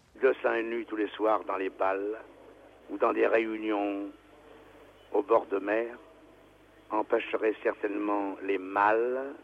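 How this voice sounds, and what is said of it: Marseille accent. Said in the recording (French): “un Marseillais célèbre ... vous allez reconnaître sa voix et son accent”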